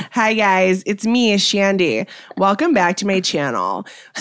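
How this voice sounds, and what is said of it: Influencer character voice with vocal fry. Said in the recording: “Vocal Fry Shandy ... She's the influencer you hate the most.”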